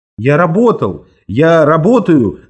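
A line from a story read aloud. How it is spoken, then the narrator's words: Heated defensive shouting. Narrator (Russian): закричал я запальчиво, как будто он был моим судьей, и мне нужно было перед ним оправдываться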